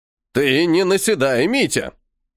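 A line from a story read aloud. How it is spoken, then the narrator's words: Jealous grumble. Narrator (Russian): ревниво заворчал Василий Азаматович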